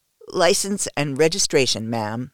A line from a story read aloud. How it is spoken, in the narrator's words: he says, but his voice is thick with lust